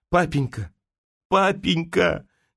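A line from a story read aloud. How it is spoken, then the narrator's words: Tearful, fading voice. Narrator (Russian): говорила она в слезах замирающим голосом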